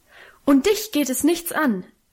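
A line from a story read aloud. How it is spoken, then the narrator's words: Frantic outburst. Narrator (German): rief sie außer sich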